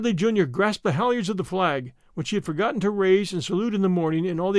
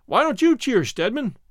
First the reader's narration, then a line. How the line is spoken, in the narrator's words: he shouted